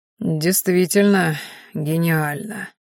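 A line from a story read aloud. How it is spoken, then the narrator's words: Sour drawl. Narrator (Russian): кисло протянул мужчина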